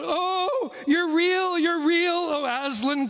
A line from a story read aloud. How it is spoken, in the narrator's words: cried Lucy